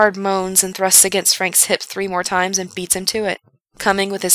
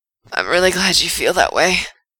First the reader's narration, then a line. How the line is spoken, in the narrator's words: Frank gasps out